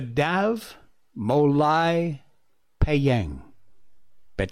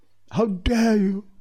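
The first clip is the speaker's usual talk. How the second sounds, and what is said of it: Good impression of Greta Thunberg. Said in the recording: “Greta Thunberg, a 16-year-old, said, "How dare you?" Hey, that was a pretty good impression.”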